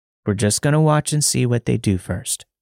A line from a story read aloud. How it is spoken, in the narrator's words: he said